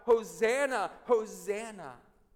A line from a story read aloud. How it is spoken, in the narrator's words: They shout